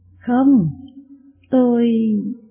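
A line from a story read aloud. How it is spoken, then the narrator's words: Stammering. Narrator (Vietnamese): Ngài ấp úng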